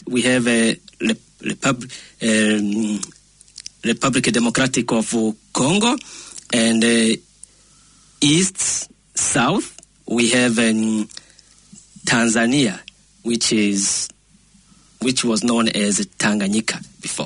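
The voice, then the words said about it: French-influenced African English accent. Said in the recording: “we are French speakers. That is why maybe my accent is not normal for Kiwis.”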